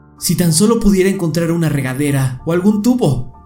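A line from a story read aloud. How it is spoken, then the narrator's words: Exclaimed. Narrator (Spanish): exclamó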